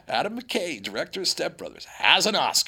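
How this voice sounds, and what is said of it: Imitates another person's voice. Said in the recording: “It was a good impersonation”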